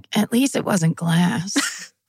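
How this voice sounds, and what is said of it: Imitates another person's voice. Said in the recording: “That's a great impression of her. ... You do a really good impression of her.”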